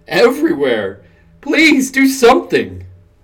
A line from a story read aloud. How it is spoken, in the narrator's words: begged